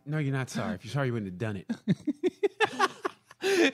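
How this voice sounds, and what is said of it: Stern, scolding mean-dad tone. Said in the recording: “you sound like a mean dad?”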